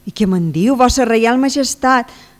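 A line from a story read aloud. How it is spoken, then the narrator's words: Flustered blushing young man exclaiming. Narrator (Catalan): s'exclama borronat en donzell, tornant de mil colors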